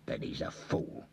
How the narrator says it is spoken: growled Tommy

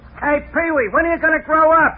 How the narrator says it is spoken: somebody shout at him

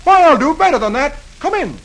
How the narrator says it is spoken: Dagwood replies cheerfully

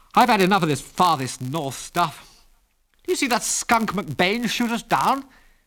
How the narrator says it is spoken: he said bitterly

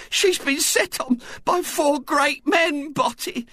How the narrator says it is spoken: she was saying tearfully

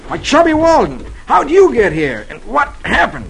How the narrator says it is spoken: he exclaims

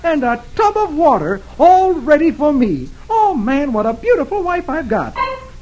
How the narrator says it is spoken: he exclaims

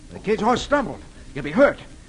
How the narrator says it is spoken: Roy exclaims

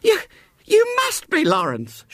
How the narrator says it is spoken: she cried distractedly

